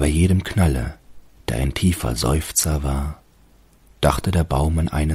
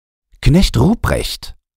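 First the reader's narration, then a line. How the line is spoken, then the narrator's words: Calling out. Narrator (German): rief es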